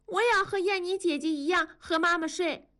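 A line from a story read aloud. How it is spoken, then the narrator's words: Calling out. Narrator (Chinese): 多多也叫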